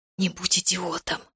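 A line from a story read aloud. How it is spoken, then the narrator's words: Hissed. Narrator (Russian): прошипела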